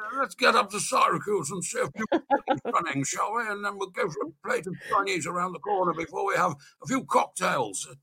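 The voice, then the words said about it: Impression of Brian Vine. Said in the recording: “that's actually a very good impersonation.”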